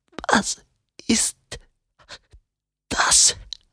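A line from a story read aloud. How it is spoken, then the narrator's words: Croaked. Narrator (German): krächzte Tom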